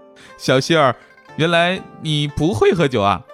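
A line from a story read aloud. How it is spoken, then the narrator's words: Laughing. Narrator (Chinese): 欧阳靖宇笑道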